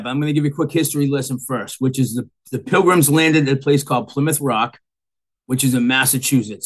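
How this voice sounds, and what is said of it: Strong Massachusetts accent. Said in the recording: “By your accent, I'm guessing you've probably been there a long time ... the accent's pretty bad”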